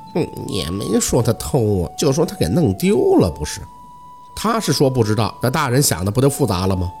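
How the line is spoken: Old woman muttering. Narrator (Chinese): 老太太 垂着脸嘟囔

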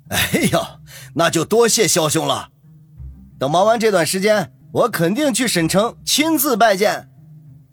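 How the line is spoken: Surprised, then beaming. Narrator (Chinese): 葛所长先是一愣，随即眉开眼笑，说道

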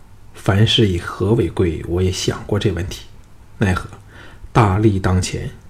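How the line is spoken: Sighing. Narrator (Chinese): 吕不韦叹道

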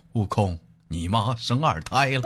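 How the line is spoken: Calm, flat reply. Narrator (Chinese): 唐僧淡淡的答道

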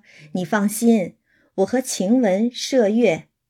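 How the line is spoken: Laughing. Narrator (Chinese): 袭人就笑了，说

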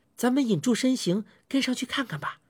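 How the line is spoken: Whispering. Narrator (Chinese): 我小声说

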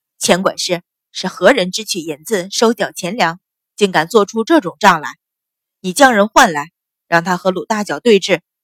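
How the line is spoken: Furious, stern question. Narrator (Chinese): 秦氏早已怒极，厉声问道

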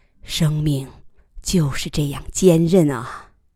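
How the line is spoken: Exclaiming with a sigh. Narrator (Chinese): 他再次感叹道

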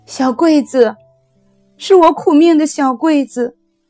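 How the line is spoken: Hoarse cry. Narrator (Chinese): 秀珍哑着嗓子喊叫了一声

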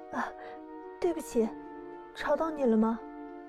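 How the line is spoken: Clear apologetic woman's voice. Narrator (Chinese): 女人的声音清晰了起来，带着歉意

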